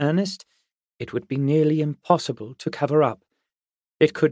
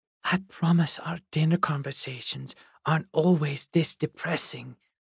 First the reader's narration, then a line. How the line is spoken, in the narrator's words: Olive whispered across the table to Noor